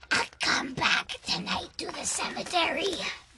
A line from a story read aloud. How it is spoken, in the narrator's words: In a threatening voice, the teacher hissed